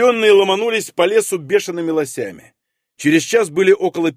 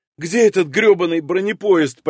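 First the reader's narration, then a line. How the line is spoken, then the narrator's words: Near-moan. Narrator (Russian): почти простонала Зоя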